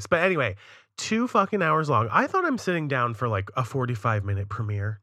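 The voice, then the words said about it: Strained, hoarse voice. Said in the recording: “sorry, I was losing my voice.”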